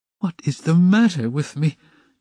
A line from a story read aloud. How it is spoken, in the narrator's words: he cried again, like one distraught